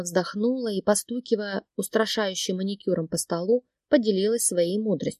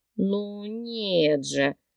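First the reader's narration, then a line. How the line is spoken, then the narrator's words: Irritated drawl. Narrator (Russian): Раздраженно протянула Марина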